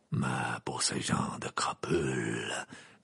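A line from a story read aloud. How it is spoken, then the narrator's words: Murmured. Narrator (French): murmura Maugrey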